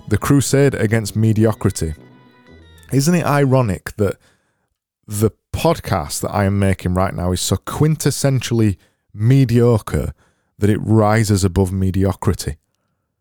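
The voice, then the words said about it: Barnsley Yorkshire English accent. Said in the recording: “I've got a Barnsley accent.”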